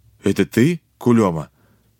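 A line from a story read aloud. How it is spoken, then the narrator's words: Uncertain question. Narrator (Russian): наконец неуверенно спросил Тимофеев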